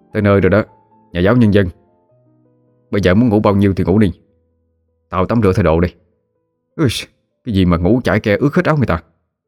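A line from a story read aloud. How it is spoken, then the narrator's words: Angry. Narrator (Vietnamese): cậu liền nói với Thụy bằng một giọng điệu vừa tức vừa giận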